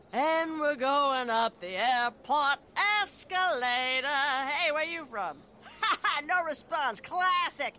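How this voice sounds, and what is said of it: Traveling lounge singer character voice. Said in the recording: “my impression of a traveling lounge singer”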